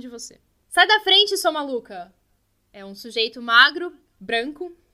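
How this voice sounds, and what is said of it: Shouting angry man's voice. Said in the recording (Portuguese): “tá gritando”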